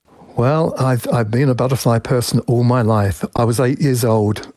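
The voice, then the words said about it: English accent. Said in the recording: “as you can probably tell from my accent, I used to live in England”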